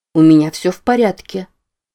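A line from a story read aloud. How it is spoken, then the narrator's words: Calm, soothing. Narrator (Russian): произнесла она спокойно, как няня на детской площадке, пытающаяся утешить истеричного ребенка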